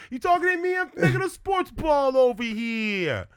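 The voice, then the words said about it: Put-on Italian accent. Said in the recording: “you could always do an Italian accent”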